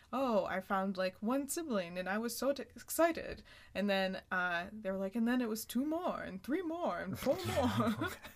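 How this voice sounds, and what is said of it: Unconvincing put-on Dutch accent. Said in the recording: “Why are they talking like this? ... They're Dutch. ... that wasn't a killer Dutch accent.”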